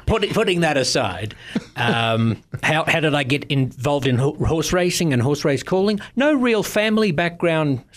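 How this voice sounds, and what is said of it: Australian accent. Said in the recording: “a British accent, is it British? ... Oh, I'm an Aussie, mate. ... With an Australian accent”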